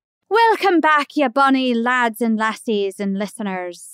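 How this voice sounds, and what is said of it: Put-on Scottish accent. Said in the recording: “If you want to do a Scottish accent, just talk normally and then go, oh, at the end.”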